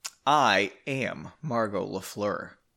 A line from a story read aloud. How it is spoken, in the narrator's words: Margot said softly